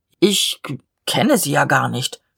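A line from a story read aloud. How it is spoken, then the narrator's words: Stammering. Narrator (German): stammelte der Leutnant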